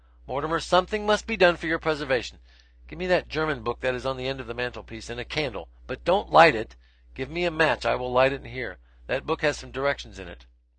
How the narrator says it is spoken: My wife called out

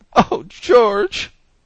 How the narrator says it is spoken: she began, sobbing

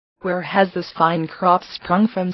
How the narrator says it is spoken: said I

